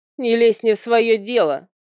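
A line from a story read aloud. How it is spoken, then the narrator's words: Barked. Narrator (Russian): рявкнула она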